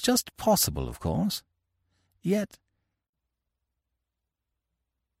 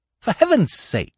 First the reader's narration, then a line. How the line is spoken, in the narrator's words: I cried